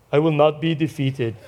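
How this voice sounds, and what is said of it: Put-on accent, sounds like Arnold Schwarzenegger. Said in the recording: “she says this in her accent ... Well, that sounds like a man ... It's Arnold is coming back to me”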